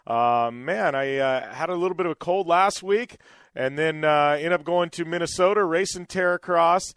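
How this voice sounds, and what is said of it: Slightly scratchy voice. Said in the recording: “my voice is a little bit scratchy today or a little bit different than normal”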